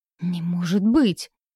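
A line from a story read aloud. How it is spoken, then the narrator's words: Alarmed, breathless. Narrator (Russian): встревоженно выдохнул Орланд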